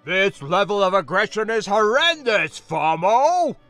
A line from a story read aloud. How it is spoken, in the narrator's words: the man shouted